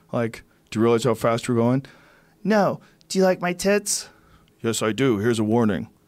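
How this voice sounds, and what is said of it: Acts out a girl and a cop. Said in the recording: “my impression of a good-looking girl getting pulled over by a cop”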